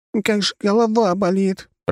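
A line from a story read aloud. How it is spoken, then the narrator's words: Groaning. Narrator (Russian): простонала Катя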